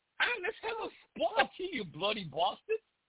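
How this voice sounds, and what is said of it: Bad British accent, sounds Irish. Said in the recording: “so awful British accent ... He tries to swear in this British accent, and it just doesn't work. He sounds Irish. He has a bit of every accent you could possibly, but English.”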